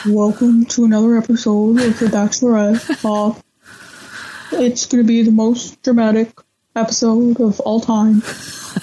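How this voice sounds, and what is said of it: Impression of Clay narrating. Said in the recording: “do an impression of Clay saying something about the show being the most dramatic season ever ... I think I'm losing my Clay”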